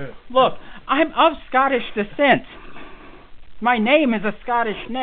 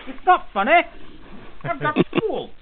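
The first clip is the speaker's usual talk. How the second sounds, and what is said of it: Poor imitation Scottish accent. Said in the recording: “I should be able to do a Scottish accent, but I can't.”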